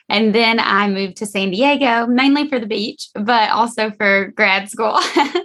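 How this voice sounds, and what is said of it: Georgia Southern US accent. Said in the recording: “I'm from Georgia ... everyone hears my accent and they're like, but where are you really from?”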